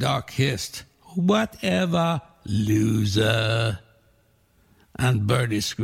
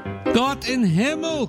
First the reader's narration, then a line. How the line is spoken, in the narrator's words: cried Pincus